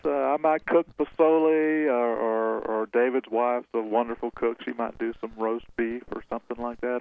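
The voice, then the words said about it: Southern US accent. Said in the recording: “South Carolina ... Good Southern accent”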